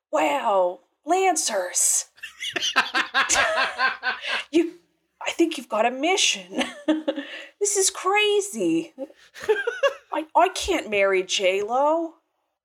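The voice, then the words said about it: Owen Wilson impression. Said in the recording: “the Owen Wilson accent ... making ... do an Owen Wilson accent.”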